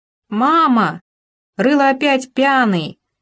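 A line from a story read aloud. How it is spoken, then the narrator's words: Child shouting from another room. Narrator (Russian): закричала как-то раз из комнаты Рылова маленькая Ира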